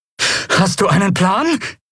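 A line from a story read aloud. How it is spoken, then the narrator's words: Breathless shout over noise. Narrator (German): rief Lien atemlos über den Lärm hinweg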